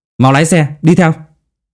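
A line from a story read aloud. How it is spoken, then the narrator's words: Shouting. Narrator (Vietnamese): Anh hét lên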